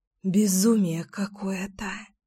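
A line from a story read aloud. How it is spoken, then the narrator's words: Breathed out. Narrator (Russian): выдохнула я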